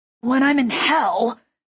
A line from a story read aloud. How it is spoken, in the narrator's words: Rafe grunted, the strain of hanging muffling his words